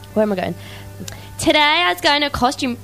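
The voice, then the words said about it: Failed American accent, sounds Australian. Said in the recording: “American accent, you say? ... That's Australian. ... That was crap.”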